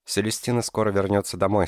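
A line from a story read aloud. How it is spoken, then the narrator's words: Plain. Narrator (Russian): сказала Джина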